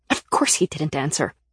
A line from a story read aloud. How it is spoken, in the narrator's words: I snapped